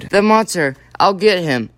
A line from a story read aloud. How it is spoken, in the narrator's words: Sam Spade cried